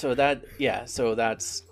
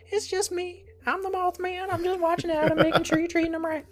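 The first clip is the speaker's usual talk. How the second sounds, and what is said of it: Silly South Park-like cartoon voice. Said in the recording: “I would do this stupid voice. ... Why do you sound like a South Park character? ... That's what Mothman sounds like.”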